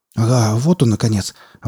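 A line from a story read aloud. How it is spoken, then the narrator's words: Relieved exhale. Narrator (Russian): облегченно выдохнул комендант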